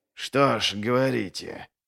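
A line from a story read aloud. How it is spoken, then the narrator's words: Muttered through clenched gums. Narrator (Russian): процедил Глокта, сжав десны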